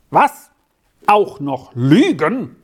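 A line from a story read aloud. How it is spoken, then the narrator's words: Thundering official. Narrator (German): donnerte der Amtmann wieder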